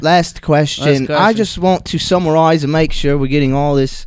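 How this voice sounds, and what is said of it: Put-on Australian accent. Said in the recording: “Always great to have the Australian. Yeah. Australians... I was just trying to match your accent.”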